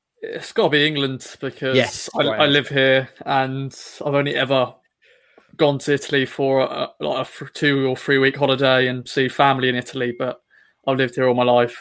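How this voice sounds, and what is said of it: English accent. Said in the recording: “as you can hear from my accent, I'm very much English”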